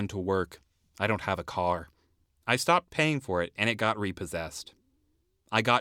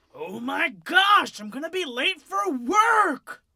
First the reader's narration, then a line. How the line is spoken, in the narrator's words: I screamed